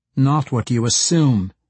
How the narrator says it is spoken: Trielle snapped

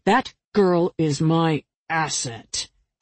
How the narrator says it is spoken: Jack said in a menacing voice

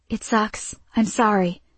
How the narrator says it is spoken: Elle whispered to Gia

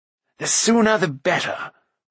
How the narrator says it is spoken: cried Fluda

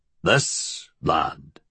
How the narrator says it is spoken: he said gruffly

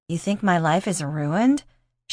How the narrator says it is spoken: She laughed

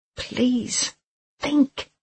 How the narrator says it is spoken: he whispered

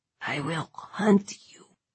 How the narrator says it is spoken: he croaked

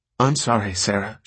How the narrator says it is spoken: she said, her hands fluttering nervously

